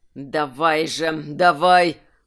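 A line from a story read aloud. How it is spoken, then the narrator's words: Muttered through clenched teeth. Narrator (Russian): процедил Гржак сквозь зубы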